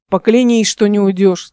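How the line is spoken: Deep-voiced male guard. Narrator (Russian): сказал один из охранников, обладатель того самого густого голоса

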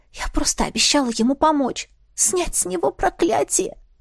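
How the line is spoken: Hoarse whisper. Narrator (Russian): прошептала я хрипло

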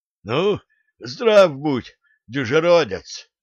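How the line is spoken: Hoarse wheeze, throat-clearing. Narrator (Russian): откашливаясь кулак, просипел Дмитрий Донской

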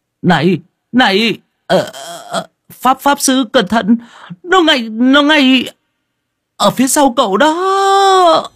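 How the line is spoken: Calling out from afar. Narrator (Vietnamese): Diệp Thanh Vân ở đầu cầu kêu lên

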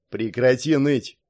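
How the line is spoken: Displeased barking. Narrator (Russian): недовольно рявкнул старший группы

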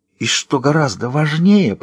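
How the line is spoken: Theatrical whisper. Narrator (Russian): продолжает она театральным шепотом

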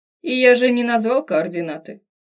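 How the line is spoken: Phlegmatic tone. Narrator (Russian): заметил флегматичным тоном

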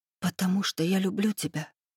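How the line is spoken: Soft breathy whisper. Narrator (Russian): выдохнула тихо, так, чтобы услышал только Рейв

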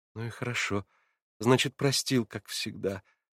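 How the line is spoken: Smiling through tears. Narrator (Russian): сказала она, улыбаясь сквозь слезы

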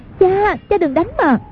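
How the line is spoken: Frightened cry. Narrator (Vietnamese): Hoàng Dung hoảng sợ kêu lên

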